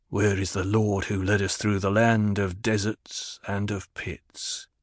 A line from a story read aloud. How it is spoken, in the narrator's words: He murmured